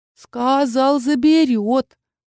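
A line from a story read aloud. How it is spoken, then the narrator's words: Drawn-out whimpering child. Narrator (Russian): протянул, подвывая кроха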